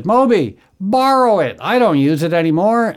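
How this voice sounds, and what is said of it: Imitates another person's voice. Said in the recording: “my David Lynch impersonation”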